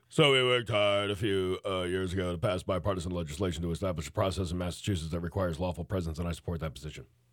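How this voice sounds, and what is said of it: Imitates another person's voice. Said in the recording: “That's your governor impersonation?”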